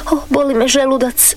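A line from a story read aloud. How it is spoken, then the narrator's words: Crying. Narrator (Croatian): plakala je ona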